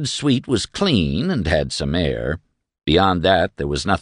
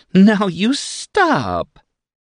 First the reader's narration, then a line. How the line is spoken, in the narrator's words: she giggled